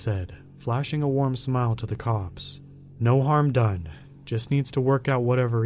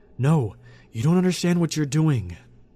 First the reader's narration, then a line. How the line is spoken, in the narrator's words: I cried, fighting against the men